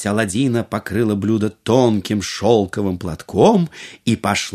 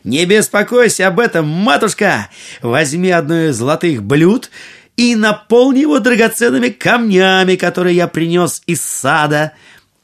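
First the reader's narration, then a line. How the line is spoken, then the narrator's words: Cheerful shout. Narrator (Russian): весело крикнул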